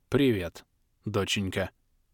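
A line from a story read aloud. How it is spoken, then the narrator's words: Hoarse. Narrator (Russian): хрипло ответил я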